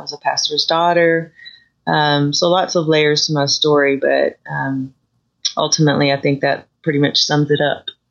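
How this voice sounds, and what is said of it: Slight Texas accent. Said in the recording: “the little accent you have there that you were from Texas”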